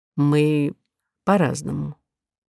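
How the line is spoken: Quiet. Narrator (Russian): тихо сказал Миша Гофман

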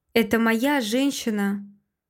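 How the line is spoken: Calm. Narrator (Russian): Говорю спокойно

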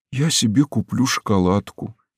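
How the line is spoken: Quiet voice. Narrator (Russian): тихим голосом сказал он

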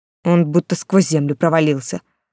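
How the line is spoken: Irritated reply. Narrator (Russian): раздраженно ответил герцог

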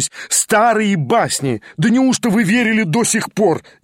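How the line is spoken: Loud mocking laughter. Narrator (Russian): Я расхохотался

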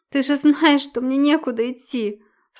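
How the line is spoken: Sobbing. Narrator (Russian): всхлипывает

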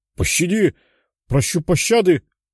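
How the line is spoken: Exclaiming. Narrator (Russian): воскликнул он

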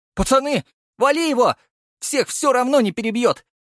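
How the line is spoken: Frustrated yell. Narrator (Russian): заорал рыжий, поняв, что так просто со мной не справится

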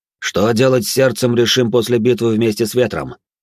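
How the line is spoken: Loud. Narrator (Russian): громко продолжил

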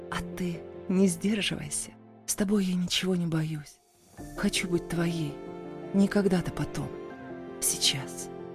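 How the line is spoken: Whisper. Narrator (Russian): прошептала

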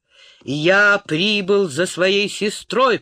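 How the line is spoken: Booming voice. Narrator (Russian): прогремел Роган

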